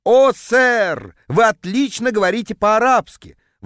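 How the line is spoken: Ecstatic howl. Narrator (Russian): восторженно взвыл продавец

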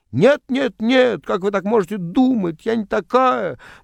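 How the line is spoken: Indignant girls. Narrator (Russian): возмущенно ... девочки

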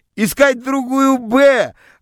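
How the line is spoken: Joyful shouts from classroom. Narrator (Russian): радостно кричали мне из класса

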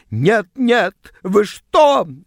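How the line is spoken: Shrieked. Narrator (Russian): взвизгнула она

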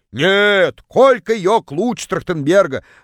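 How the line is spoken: Distant yell. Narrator (Russian): Заорала из самого дальнего угла

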